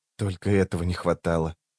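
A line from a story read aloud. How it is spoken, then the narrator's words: Whisper. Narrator (Russian): прошептала рваная снасть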